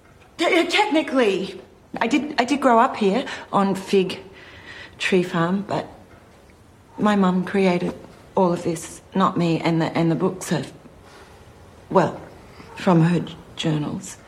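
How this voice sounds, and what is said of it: Posh British accent. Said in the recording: “I knew your accent sounded kind of fishy. Because, like, who the hell talks like they're on Downton Abbey”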